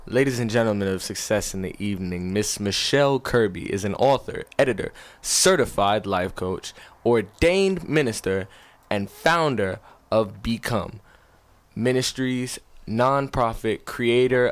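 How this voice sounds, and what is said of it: Big announcer-style introduction voice. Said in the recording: “I'm going to put on the big time voice ... The big time voice ... Put on the big time voice”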